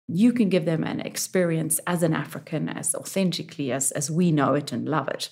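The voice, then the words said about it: Non-American, African-sounding accent. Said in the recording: “People would hear my accent and they knew I wasn't from Brooklyn”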